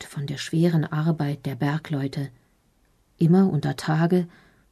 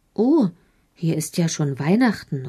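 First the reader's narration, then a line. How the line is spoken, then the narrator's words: Excited call. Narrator (German): ruft Eddie ganz begeistert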